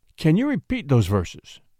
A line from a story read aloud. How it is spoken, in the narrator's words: asked the king eagerly